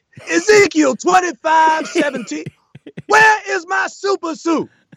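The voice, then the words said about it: Yelled, passable imitation of another's voice. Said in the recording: “I can do like a passable enough Sam ... but I can only do him yelling ... I can't do a real Sam impression.”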